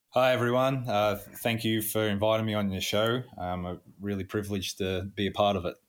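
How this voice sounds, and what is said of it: Australian accent. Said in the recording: “especially with the accent. So we can tell that you're not necessarily Niagara born and raised ... I'm Australian.”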